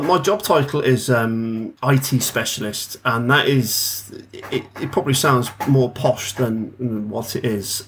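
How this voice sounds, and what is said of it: English accent. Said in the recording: “From lovely England. There's a bit different accent to what you're used to.”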